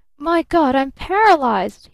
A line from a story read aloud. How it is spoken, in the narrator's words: he screamed